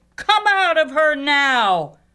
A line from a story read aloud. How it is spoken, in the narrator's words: in a great, authoritative voice he yelled